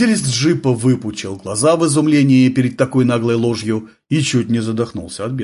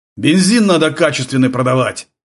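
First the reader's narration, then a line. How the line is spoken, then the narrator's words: Barking. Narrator (Russian): рявкнул он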